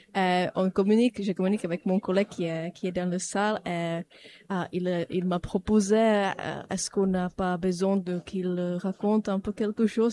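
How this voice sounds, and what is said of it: Non-French accent speaking French. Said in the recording (French): “moi, je viens pas de la France, comme vous avez pu savoir par rapport à mon accent.”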